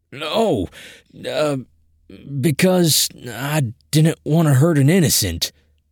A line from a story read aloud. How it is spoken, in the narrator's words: I stammered